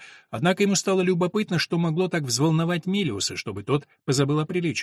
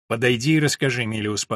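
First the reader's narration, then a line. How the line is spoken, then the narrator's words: Stern demand. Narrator (Russian): потребовал он строго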